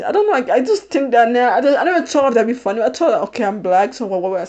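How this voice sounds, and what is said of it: Non-American, British-like accent. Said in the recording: “you can hear it in my voice every time I speak. You can clearly tell I'm not American. Yes, I have an accent... it's not a Haitian accent... It's more like a British accent”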